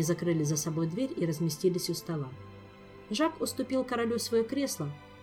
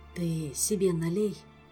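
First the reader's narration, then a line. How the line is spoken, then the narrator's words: Sighing. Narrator (Russian): вздохнул Шеллар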